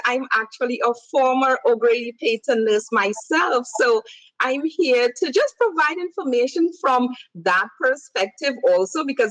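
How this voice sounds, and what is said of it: Noticeable non-American accent. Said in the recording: “I'm sure everyone is hearing my accent.”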